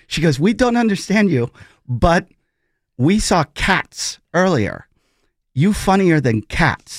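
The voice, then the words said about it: Put-on foreign accent, broken English. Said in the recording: “Excuse me for the accent.”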